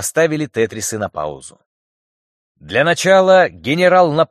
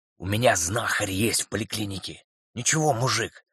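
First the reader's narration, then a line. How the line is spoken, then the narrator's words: Whispering. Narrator (Russian): шептал Илья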